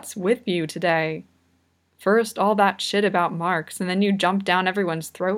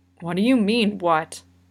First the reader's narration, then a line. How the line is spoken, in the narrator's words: Kageyama growls